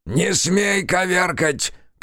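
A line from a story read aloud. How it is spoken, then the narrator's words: Shouting. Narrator (Russian): кричал он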